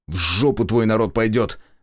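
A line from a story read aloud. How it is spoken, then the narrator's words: Irritated, curt retort. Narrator (Russian): раздраженно бросил я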